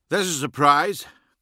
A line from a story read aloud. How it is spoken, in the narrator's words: grunted, unable to contain himself any longer